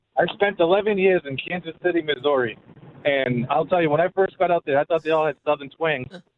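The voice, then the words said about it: Boston accent, like Matt Damon. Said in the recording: “I hear an accent. ... I'm from Boston, man. ... You sound like Matt Damon. ... you do have that Matt Damon thing”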